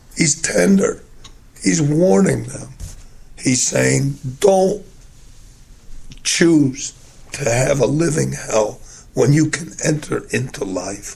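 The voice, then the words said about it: Weak, strained voice. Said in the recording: “gave me a weak voice today”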